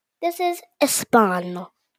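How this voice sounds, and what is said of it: Child's put-on Spanish accent. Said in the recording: “My Spanish accent. ... do your Spanish accent.”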